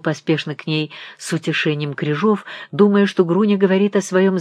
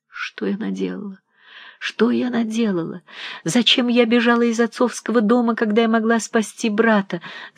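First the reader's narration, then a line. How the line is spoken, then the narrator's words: Sobbing. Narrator (Russian): Груни и зарыдала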